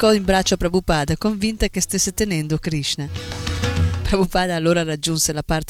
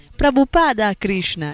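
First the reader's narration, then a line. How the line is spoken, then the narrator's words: Exclaimed. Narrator (Italian): esclamò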